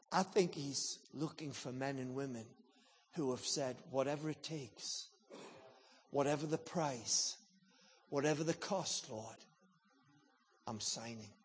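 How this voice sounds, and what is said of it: English accent. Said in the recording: “this English accent”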